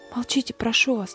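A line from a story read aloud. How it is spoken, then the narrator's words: Nun speaking quietly. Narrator (Russian): тихо сказала монахиня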